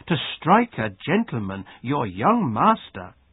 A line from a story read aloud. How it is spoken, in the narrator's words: cried the maid